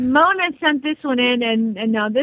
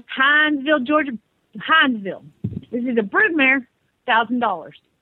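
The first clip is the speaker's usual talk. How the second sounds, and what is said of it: Put-on Southern US accent. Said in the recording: “this one is a southern accent because it's from Hinesville, Georgia”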